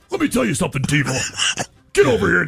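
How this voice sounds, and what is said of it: Impression of a pro wrestler's voice. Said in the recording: “That's a pretty good impersonation. ... it actually sounds like... ... Hulk Hogan”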